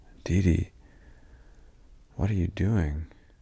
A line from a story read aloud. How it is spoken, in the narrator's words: Sleepily, he said